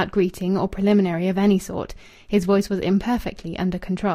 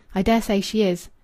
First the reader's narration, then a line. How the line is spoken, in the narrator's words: Rachel replied curtly